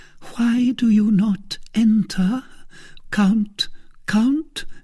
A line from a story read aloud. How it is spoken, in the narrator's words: said Milady in a trembling voice